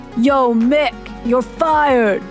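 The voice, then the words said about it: Imitates another person's voice. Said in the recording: “my best Stallone impression”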